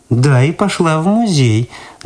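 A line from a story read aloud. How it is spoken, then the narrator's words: Mocking repetition. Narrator (Russian): насмешливо повторила Люда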